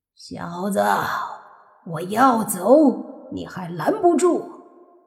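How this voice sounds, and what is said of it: Hoarse, raspy character voice. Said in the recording (Chinese): “沙哑的声音说”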